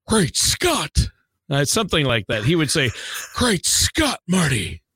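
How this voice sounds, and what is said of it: Christopher Lloyd as Doc Brown impression. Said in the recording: “I used to be able to do a great Christopher Lloyd impression ... it's not great”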